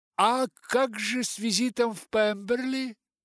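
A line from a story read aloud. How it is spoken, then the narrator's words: Exclaimed. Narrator (Russian): воскликнула миссис Гардинер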